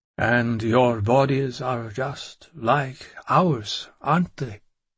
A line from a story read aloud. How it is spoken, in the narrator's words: I asked slowly